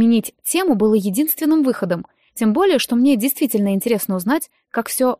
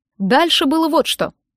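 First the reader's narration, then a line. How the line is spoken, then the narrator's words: Meaningful snort while speaking. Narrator (Russian): произнес он, многозначительно хмыкнув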